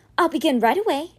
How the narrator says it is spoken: Eva said, her voice even, though she was quite disgusted by the task

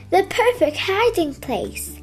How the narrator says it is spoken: chuckled

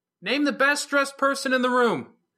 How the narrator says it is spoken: Verona called out

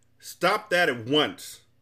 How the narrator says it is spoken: thundered Azaz

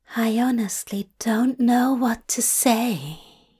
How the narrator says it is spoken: he whispers

